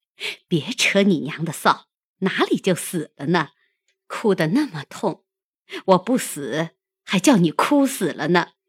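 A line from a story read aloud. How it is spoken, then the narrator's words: Laughing. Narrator (Chinese): 凤姐笑道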